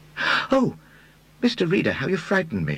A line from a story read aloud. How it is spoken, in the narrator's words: she gasped